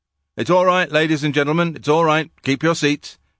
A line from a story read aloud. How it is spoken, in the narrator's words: shouted the dark figure